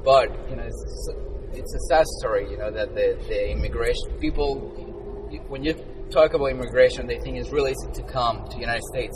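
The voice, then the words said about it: Strong non-native English accent. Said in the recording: “sorry for my accent ... sometimes it's a little bit hard to understand”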